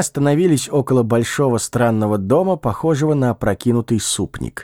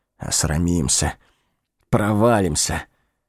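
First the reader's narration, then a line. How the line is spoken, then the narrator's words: Muttering, cold and nervous. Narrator (Russian): он, пожимаясь от холода и волнения, бормотал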